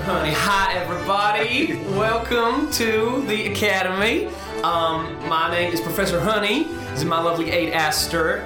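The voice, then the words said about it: Put-on warm Southern American accent. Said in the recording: “I'm feeling like a Southern American accent ... Warm.”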